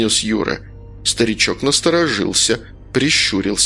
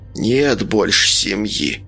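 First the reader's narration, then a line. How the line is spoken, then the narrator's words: Hoarse voice. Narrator (Russian): произнес он сиплым голосом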